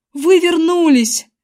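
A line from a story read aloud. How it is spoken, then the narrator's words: Shout. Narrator (Russian): закричал я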